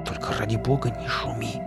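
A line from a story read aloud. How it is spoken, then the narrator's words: Urgent hiss. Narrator (Russian): зашипел на него я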